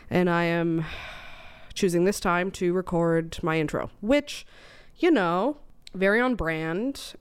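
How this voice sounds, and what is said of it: Congested voice from a cold. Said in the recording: “I have a cold. ... I had a cold for, oh gosh, 3 days now”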